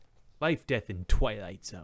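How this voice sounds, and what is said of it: Twilight Zone narrator impression, like Zapp Brannigan. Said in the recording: “my impersonation of the narrator from Twilight Zone is just Zap Brannigan”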